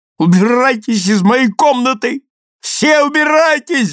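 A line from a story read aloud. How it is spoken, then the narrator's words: Shrieking. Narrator (Russian): взвизгивает Джимми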